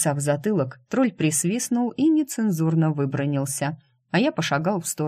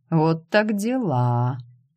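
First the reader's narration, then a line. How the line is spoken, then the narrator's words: Drawling. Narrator (Russian): протянул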